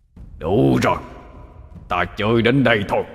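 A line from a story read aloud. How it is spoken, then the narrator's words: Old man's frenzied roar. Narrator (Vietnamese): Lão tổ điên cuồng mà gầm lên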